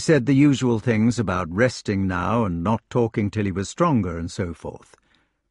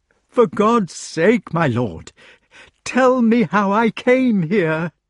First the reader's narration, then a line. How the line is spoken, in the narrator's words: cried in anguish